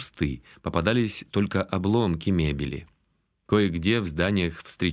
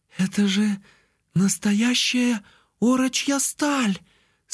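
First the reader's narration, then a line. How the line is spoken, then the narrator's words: Breathless exclamation. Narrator (Russian): с придыханием воскликнула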